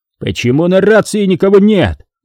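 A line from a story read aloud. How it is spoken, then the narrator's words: Commander shouting. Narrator (Russian): крикнул ротный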